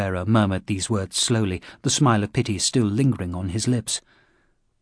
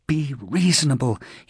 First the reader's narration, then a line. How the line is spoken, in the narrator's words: he told himself desperately